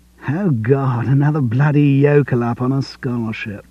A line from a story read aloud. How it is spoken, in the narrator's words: one said with a lazy drawl